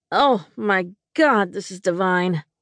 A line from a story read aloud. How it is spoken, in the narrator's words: I moaned as the flavors melted in my mouth